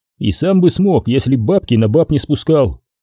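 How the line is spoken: Snorting. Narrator (Russian): хмыкнул Андрей

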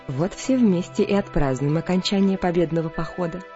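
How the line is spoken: Cheerful. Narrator (Russian): весело сказала она

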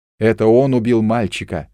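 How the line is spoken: Shout. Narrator (Russian): закричал я

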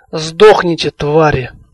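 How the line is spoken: Hiss through teeth. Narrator (Russian): Сквозь зубы прошипела Лани

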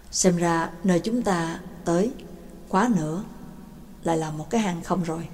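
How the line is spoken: Soft sighing. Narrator (Vietnamese): Giáo sư Phương Tân khẽ thở dài nói

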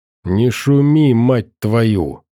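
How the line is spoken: Growled by a scarred stalker. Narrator (Russian): прорычал шрамированный сталкер

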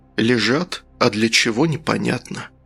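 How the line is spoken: Whispered. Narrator (Russian): прошептал следователь

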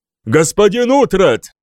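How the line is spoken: Shouted again. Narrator (Russian): снова крикнул король

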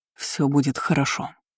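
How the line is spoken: Quiet. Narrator (Russian): тихо сказал мне Демьен

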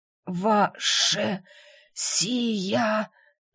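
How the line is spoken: Wheezed hoarsely. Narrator (Russian): прохрипел Кэпер

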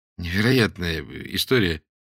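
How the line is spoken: Uncertain statement. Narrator (Russian): констатировал Дмитрий неуверенно

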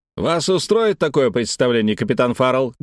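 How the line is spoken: Loud barking shout. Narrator (Russian): гаркнул Дженаро

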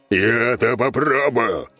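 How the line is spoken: Creature's bark. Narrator (Russian): рявкнула тварь

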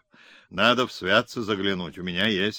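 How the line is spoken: Plain. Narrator (Russian): ответил Симонов

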